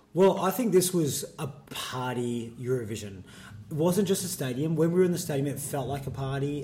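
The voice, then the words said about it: Raspy, strained voice. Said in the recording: “as you can tell, ... voice ... He's had a big week ... I've sung to Susie's song about twenty five thousand times ... he's a little bit raspy, so you'll be able to tell his voice”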